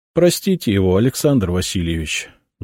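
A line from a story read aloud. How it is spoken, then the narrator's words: Unhappy voice. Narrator (Russian): несчастным голосом сказала Гораздова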